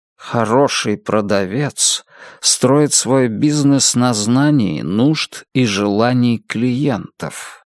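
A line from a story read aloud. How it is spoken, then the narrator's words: Quiet hypnotic voice. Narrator (Russian): сказал мистер Гонт своим тихим, гипнотизирующим голосом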